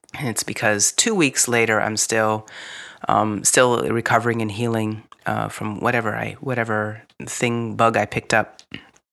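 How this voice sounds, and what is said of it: Gravelly, raspy voice. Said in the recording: “my voice might sound a bit gravelly or raspy.”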